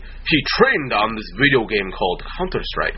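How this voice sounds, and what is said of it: Put-on Japanese accent. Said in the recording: “it almost sounded like a Japanese accent”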